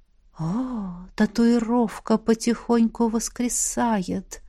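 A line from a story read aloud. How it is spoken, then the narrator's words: Whispered close to ear. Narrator (Russian): У самого уха прошептала ректор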